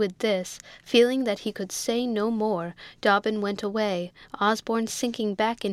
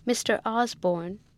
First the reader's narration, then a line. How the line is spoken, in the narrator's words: said Dobbin with a faltering voice